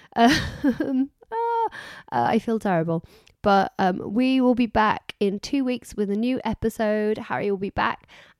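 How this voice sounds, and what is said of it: Strained, failing voice. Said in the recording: “I'm losing my voice... my voice is going.”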